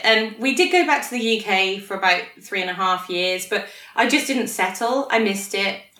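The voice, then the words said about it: British accent. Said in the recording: “despite the accent, I actually feel very Australian ... there was no criticism about the accent”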